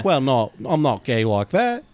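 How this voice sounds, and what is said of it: Impression with Australian-sounding accent. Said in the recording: “Is he Australian? ... Yeah, yeah, that's just my impression.”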